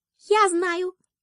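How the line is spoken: Squeaky little mouse. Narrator (Russian): пискнул мышонок

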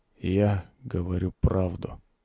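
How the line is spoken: Barely audible whisper. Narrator (Russian): едва слышно прошептал тот

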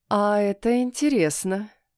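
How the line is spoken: Drawled. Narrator (Russian): протянула

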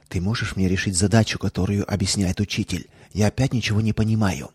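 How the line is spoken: Whisper. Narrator (Russian): Алиса, сидящая рядом с Кларой, прошептала

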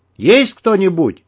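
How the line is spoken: Yelling through doorway. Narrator (Russian): заорал в открытую дверь Дмитрий

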